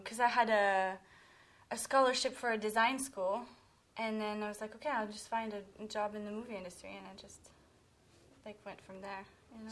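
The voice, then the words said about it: Foreign accent, sounds artistic. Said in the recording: “with the accent ... everything you say just sounds more artistic”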